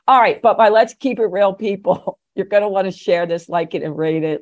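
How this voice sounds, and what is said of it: Mixed Jersey and New York accent. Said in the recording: “your accent is not that Philly ... I'm originally from Jersey ... So I have a kind of a mixture, spent a lot of time in New York, ... A lot of time in California.”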